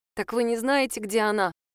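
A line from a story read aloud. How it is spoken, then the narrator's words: Trembling voice. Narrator (Russian): спросила Лиза дрогнувшим голосом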